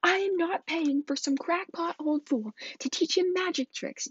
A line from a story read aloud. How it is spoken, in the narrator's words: yelled Uncle Vernon